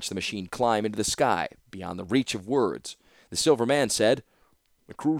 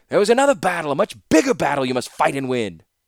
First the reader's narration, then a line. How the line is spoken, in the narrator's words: Just before the wings' whirring drowned out all the sound, Baron shouted